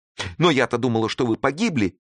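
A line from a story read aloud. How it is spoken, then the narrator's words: Exclamation. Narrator (Russian): воскликнула Клара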